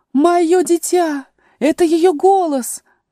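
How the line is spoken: Exclaimed by a queen. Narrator (Russian): воскликнула королева белых

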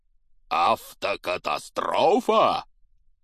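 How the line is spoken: Booming. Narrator (Russian): прогремел Хагрид

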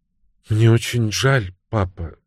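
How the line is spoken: Quiet. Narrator (Russian): тихо сказала она

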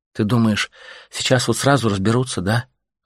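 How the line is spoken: Sighing. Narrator (Russian): вздохнула женщина

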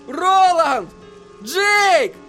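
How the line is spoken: Yell. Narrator (Russian): завопил Эдди

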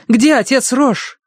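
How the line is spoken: Shouted. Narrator (Russian): крикнула она

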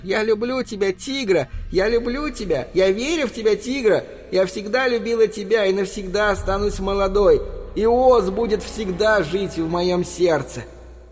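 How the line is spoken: Thin high shouting. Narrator (Russian): Ее тонкий голос кричал

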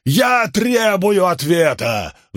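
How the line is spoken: Furious roar. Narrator (Russian): взревел исход Иерусалим

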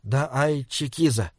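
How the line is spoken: Quiet. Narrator (Russian): тихо сказал Саймон

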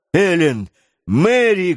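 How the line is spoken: Shout. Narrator (Russian): крикнул Гленарван

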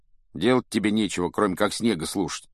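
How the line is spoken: Grumbling. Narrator (Russian): пробурчал Рон

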